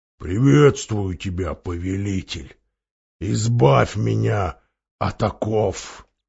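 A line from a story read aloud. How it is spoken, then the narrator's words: Deep booming voice. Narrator (Russian): Голова пробасила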